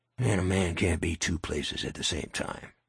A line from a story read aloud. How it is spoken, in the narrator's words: he muttered